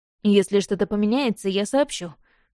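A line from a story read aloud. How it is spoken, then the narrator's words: Smirking grunt. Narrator (Russian): хмыкнул Дэн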